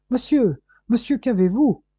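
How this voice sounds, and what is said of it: Astonished, worried tone. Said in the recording (French): “avec un admirable accent d'étonnement et d'inquiétude”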